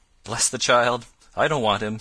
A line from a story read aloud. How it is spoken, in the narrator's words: said his mother cheerfully